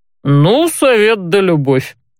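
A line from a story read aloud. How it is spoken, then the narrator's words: Short chuckle. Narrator (Russian): хохотнул Барт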